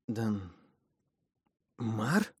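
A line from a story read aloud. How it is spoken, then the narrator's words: Barely squeezed out. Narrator (Russian): Едва выдавила она из себя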